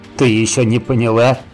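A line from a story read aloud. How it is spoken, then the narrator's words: Chuckling. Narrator (Russian): хохотнул Саныч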